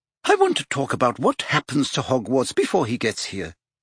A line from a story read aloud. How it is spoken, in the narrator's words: she said quickly